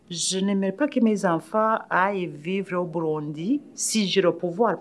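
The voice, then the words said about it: Slight African accent in French. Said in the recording (French): “je garde des mon accent quand même un, peu africain”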